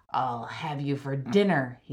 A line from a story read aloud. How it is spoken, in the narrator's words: growled